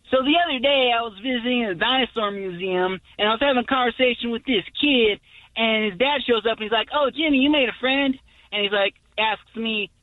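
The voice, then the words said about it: Imitates a comedian's voice. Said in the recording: “Let's hear your comedy impression.”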